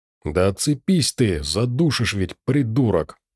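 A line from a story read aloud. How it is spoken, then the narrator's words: Angry, through gritted teeth. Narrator (Russian): Зло сквозь зубы цедил Андрей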